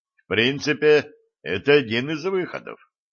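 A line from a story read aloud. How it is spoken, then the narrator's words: Wry snort, healer. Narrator (Russian): хмыкнул знахарь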